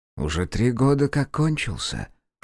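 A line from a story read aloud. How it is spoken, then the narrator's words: Quiet whisper. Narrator (Russian): шепнул он тихо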